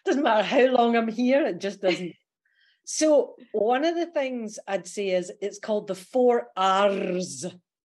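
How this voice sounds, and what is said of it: Australian accent with Scottish traces. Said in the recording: “my Aussie accent is really good, but there's a Scottishness comes through... Just a little bit. You can barely tell that.”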